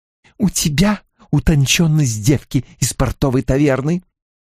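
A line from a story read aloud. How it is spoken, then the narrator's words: Hiss. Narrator (Russian): прошипела ей Алайна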